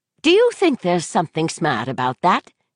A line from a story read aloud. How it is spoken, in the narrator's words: She asked sharply